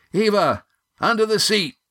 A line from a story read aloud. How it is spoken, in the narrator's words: yelled Gar